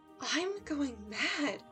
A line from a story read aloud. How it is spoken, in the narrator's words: I whispered to myself